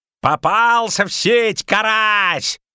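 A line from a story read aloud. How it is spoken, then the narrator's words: Yelled. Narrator (Russian): орал Козаед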